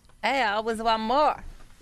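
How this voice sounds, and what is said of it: Put-on badass accent. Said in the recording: “That was like a badass accent. ... That was my whore accent.”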